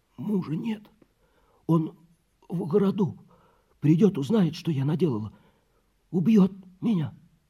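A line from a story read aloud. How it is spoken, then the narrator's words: Hoarse voice. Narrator (Russian): хриплый голос, который говорил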